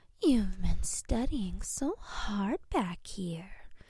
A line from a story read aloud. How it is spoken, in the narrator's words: coos